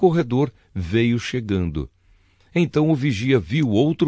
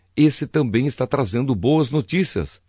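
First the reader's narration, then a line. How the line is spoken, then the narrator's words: Plain. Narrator (Portuguese): respondeu Davi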